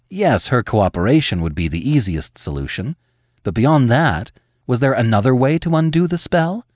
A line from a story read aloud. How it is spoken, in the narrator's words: Sasha sighed, not at all convinced Lily would help her